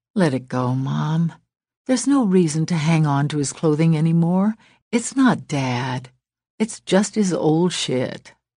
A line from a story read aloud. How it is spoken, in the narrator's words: added in a gentler voice